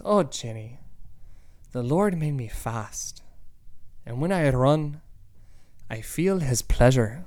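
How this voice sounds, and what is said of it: Deliberately bad Irish accent. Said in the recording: “I'm going to do a really bad Irish accent”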